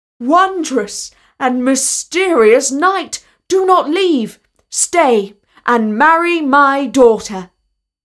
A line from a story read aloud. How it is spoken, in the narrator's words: the prince called out